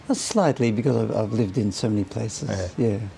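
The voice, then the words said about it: Near-British accent. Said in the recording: “your accent is almost British”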